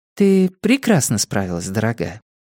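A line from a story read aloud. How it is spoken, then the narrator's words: Gentle, affectionate. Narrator (Russian): ласково произнесла София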